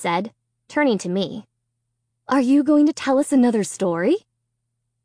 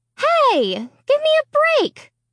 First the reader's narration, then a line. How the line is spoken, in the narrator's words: I shouted